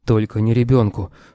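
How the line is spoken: Hoarse wheeze. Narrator (Russian): просипел

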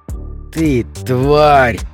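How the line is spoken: Hissed. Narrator (Russian): прошипел человек

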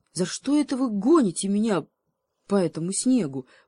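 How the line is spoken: Animal's moan. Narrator (Russian): простонал гепард

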